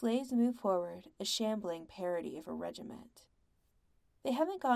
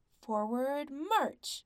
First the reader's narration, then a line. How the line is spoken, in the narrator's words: the man with the whip barks